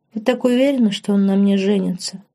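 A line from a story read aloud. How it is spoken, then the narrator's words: Sadder than intended. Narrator (Russian): Более грустно, чем хотела, поинтересовалась Лорен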